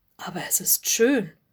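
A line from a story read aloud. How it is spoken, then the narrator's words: Breathy whisper. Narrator (German): hauchte Lotte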